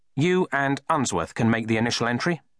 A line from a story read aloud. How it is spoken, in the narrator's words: said Matram